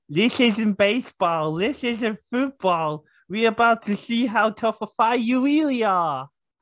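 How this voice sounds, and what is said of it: Odd accent, mouth full of tongues. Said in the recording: “What was that accent? ... You sound like your mouth's just full of tongues.”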